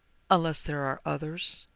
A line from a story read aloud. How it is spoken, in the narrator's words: he prompted hesitantly